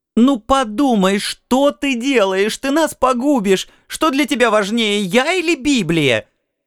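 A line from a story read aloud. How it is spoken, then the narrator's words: Hysterical screaming. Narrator (Russian): Она уже опять истерически кричала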